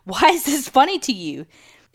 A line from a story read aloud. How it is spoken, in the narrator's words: I was so scared and I screamed